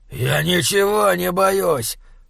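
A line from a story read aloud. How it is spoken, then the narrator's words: Wolf's growl. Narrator (Russian): прорычал волк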